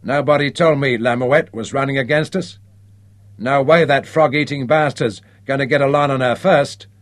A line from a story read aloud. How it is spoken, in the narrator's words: announced Vin Baker grimly